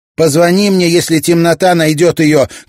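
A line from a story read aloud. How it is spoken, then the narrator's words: Shouted after someone. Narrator (Russian): крикнула Мэй ему вслед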